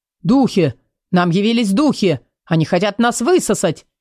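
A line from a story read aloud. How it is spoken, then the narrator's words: Crowd screaming frantically. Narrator (Russian): Истошно заорали люди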